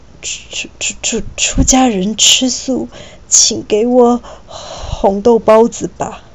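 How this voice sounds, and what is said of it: Trembling, stammering frightened voice. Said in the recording (Chinese): “他用颤抖的声音说”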